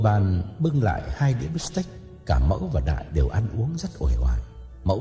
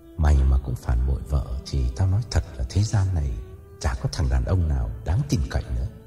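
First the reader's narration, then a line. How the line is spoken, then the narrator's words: Sighing. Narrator (Vietnamese): Đại lắc đầu thở dài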